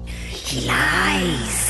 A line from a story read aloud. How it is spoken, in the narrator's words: the voices hissed